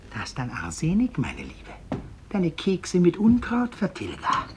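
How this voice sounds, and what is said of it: Whispering. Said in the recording (German): “flüstert auf der Treppe”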